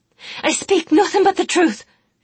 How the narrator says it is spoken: she shouted back, her eyes dilated with fear, and something more, something of anger and rage and shame

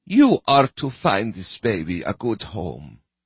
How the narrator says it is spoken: she said

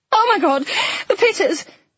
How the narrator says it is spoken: Flo shrieked

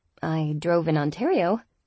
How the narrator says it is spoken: I commented dryly

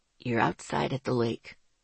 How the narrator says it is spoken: Ethan said gently

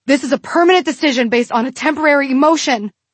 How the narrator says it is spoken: the mirror pleaded

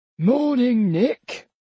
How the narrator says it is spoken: said Grandpa, in his chirpiest voice

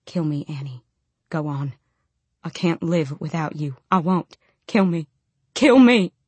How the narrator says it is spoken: whispered

